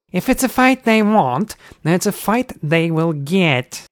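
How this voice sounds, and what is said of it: Irritatingly nasal character voice. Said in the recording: “laughed in his irritatingly nasally voice.”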